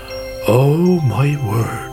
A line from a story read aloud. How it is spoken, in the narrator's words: he said